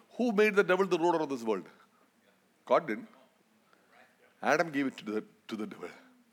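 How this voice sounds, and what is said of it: Noticeable foreign accent. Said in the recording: “Can you understand my accent? Am I going too fast?”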